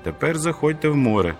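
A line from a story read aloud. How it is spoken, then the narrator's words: Shout. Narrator (Ukrainian): крикнув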